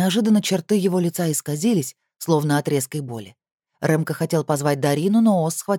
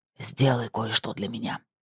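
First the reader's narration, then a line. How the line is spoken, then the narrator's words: Whisper. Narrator (Russian): прошептал он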